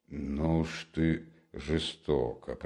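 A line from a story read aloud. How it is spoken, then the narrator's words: Mutter. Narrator (Russian): пробормотал Никодим Фомич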